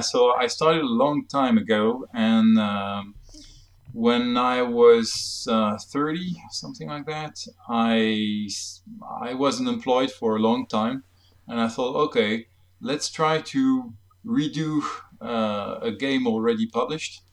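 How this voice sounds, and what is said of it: French accent in English. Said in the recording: “I'm French for my accent, maybe you noticed ... A slight hint.”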